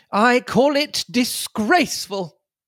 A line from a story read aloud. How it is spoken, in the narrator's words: he said, raising his voice